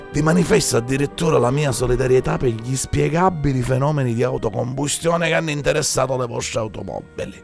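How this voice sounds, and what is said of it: Disguised voice, exaggerated Sicilian accent. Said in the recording (Italian): “mascheri la voce e calchi l'accento siculo”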